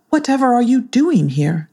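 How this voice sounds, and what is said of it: Prim woman's character voice. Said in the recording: “in a prim voice”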